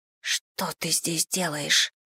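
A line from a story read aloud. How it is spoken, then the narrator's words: Whisper. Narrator (Russian): шепнула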